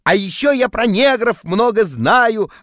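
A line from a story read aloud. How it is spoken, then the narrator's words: Shouting in sleep. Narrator (Russian): орал я во сне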